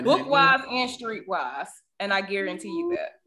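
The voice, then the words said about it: Deep Southern American accent. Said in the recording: “I have a deep Southern accent ... like your Southern accent”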